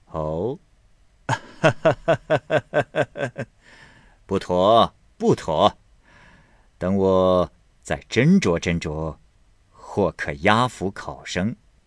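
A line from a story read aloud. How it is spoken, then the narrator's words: Laughing. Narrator (Chinese): 玉村笑道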